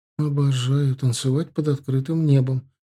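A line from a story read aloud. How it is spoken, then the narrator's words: Slightly upset sigh. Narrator (Russian): чуть расстроенно вздохнула Тесс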